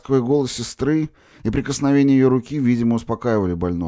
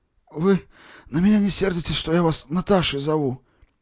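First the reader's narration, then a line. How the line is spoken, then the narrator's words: Tearful. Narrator (Russian): произнес он сквозь слезы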